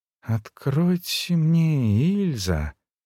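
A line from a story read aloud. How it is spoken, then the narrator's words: Soft, purring, serious plea. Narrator (Russian): попросил бессознательно подражая мурлыкающей мягкости ее голоса говорит совершенно серьезно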